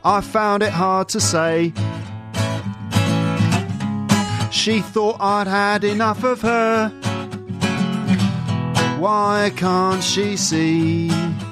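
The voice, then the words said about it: Singing in a London accent. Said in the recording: “you can hear that sort of London accent ... This is me singing it with a London accent”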